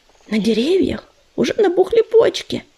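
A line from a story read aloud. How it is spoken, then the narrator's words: Whisper. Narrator (Russian): шепнул он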